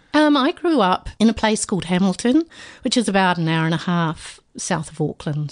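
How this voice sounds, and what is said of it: Slight New Zealand accent. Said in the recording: “I've got a New Zealand ... little twang there”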